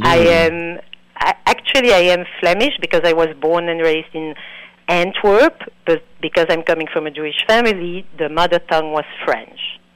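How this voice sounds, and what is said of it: Non-native English accent. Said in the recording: “It's obvious you are not from, you're not American ... I apologize for the accent.”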